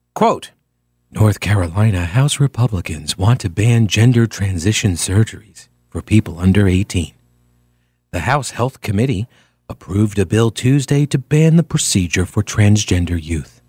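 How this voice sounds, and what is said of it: Mock public radio newsreader voice. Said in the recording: “That's my NPR voice.”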